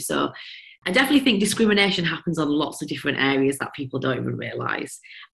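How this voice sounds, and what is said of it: Broad Yorkshire accent. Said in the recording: “this Yorkshire broad accent”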